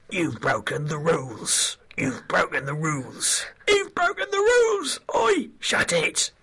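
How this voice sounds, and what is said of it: Shouted Jim Broadman impression. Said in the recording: “a scarily good impression ... you could actually be Jim Broadman”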